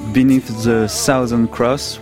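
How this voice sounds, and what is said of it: Accented English pronunciation. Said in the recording (French): “excusez mon accent,”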